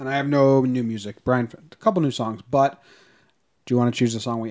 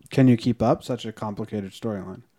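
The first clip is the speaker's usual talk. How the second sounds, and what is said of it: Sarcastic, facetious tone. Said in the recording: “being sarcastic? I was being facetious”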